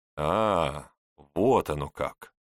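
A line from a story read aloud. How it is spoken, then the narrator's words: Drawn-out, young man. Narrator (Russian): протянул молодой человек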